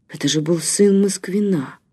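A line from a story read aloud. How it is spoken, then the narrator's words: Shocked mutter. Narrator (Russian): пробормотал потрясенно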